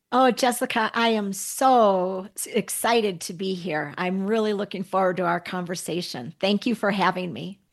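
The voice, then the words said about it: Bubbly, upbeat voice. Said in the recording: “in your bubbly voice”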